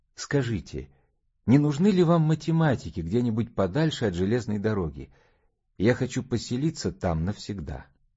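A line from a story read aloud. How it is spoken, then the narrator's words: Timid request. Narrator (Russian): робко попросил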